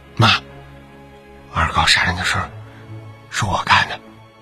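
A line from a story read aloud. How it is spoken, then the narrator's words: Whispered. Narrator (Chinese): 儿子…小声的说道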